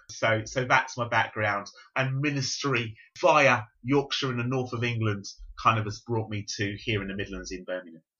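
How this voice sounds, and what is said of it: London-ish English accent. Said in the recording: “I'm not strictly speaking Cockney ... I have a Londonish accent.”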